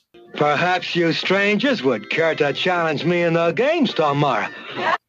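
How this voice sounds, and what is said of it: Cartoon character voice with imitated movie-star accent. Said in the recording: “is the voice of Snagglepuss. But if Snagglepuss was doing a John Wayne accent”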